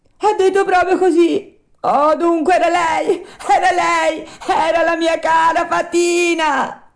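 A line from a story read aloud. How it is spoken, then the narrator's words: Sobbing wailing. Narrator (Italian): cominciò a urlare Pinocchio, singhiozzando e piangendo dirottamente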